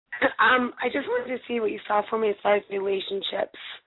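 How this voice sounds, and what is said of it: Hoarse, nearly lost voice. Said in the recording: “excuse my voice. I lost it, and it doesn't want to come back.”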